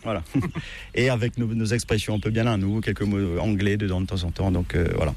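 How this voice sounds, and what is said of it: Sing-song Mauritian French accent. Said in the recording (French): “l'accent, notre accent mauricien, notre patois ... c'est ce français qui est un petit peu ... peut-être un peu chantant”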